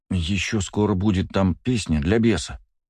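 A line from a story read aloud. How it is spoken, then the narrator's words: Quiet reminder. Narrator (Russian): тихонько напомнил Кирилл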